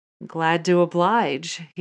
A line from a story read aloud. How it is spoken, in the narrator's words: chuckled